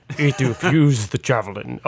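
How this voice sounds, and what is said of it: Deep villain-like character voice. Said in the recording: “that's a terrible accent ... I sound like Darth Vader there ... a dark cross between Darth Vader and Yoda”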